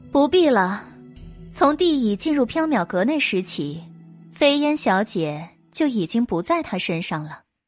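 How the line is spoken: Calm, faint smile. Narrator (Chinese): 白姬淡淡一笑

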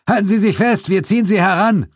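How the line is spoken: Calling out. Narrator (German): rief Zuko

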